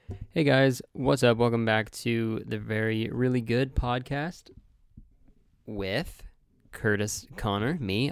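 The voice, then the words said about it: Sick, congested voice. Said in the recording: “I don't know if you can hear in my voice, but I'm fucking sick”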